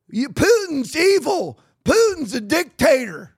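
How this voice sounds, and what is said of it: Put-on redneck accent. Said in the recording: “I'm using like a redneck accent. I don't have a real good Cockney accent.”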